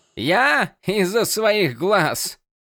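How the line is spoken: Self-mocking laugh. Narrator (Russian): Иллидан засмеялся над самим собой

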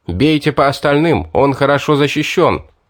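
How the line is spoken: Shouted. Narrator (Russian): я крикнул своим

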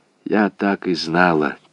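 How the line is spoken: Said quietly. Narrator (Russian): тихо сказала она

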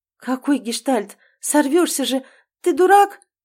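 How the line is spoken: Frightened outburst. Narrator (Russian): Испуганно взвивается Малина

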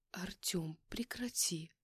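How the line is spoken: Helpless mumble. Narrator (Russian): пробормотала я, чувствуя себя абсолютно беспомощной

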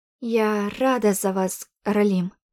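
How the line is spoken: Slightly trembling voice. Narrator (Russian): произнесла слегка дрожащим голосом

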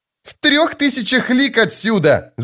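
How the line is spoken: Shout. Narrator (Russian): закричал Крокус

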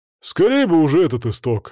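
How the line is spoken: Sigh. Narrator (Russian): вздохнул Свари

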